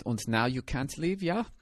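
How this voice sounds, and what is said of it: Put-on Nazi German accent. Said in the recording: “Everybody's going to sound like a Nazi, by the way, because I don't know how to do any in a Russian accent”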